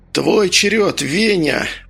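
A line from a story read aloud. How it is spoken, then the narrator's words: Hoarse rasp. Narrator (Russian): прохрипел Медовар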